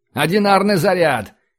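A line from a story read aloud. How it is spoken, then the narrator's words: Shouted. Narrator (Russian): крикнул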